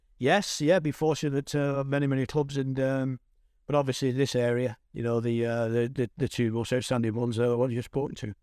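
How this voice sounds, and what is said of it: Distinctive regional accent. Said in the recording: “I think my voice will do that. I think with this accent, I think people will very much understand who it is.”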